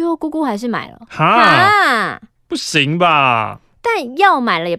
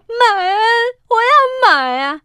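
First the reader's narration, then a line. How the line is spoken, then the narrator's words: Grandmother sobbing loudly. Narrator (Chinese): 奶奶还是大哭说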